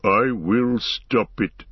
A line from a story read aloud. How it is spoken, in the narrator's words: he boomed